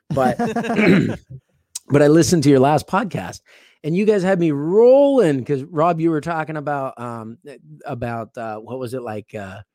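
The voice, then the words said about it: Worn-out, strained voice. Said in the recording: “I'm exhausted. My voice is shot.”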